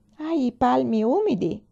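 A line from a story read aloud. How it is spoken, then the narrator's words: Exclaimed. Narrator (Italian): esclamò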